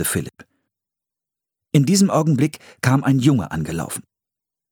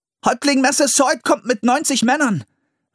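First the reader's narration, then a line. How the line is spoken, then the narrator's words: Called out. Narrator (German): rief er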